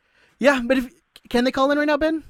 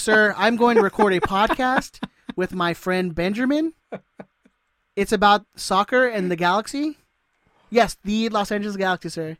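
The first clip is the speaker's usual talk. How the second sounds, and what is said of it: Put-on white voice. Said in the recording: “I can easily put on my white voice.”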